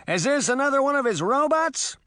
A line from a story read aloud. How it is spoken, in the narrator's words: Puck shouted